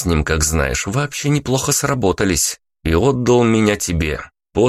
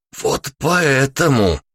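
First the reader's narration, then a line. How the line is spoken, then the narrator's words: Strained wheeze while driving. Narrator (Russian): Просипел я, отчаянно пытаясь удержать машину в потоке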